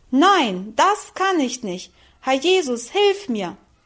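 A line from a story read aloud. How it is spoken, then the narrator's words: Loud cry. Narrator (German): rief sie laut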